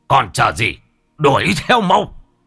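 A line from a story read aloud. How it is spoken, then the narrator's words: Shouting. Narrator (Vietnamese): Ông Bá Hùm quát lên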